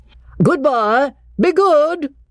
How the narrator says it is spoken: called out Cecil

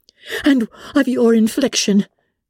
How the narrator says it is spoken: cried Elizabeth with energy

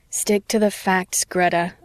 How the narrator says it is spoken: I reminded myself with a private groan

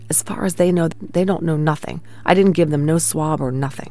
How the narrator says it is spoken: Daniel whispered

